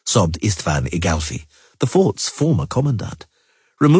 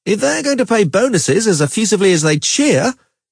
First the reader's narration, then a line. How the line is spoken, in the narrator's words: he shouted over the tumult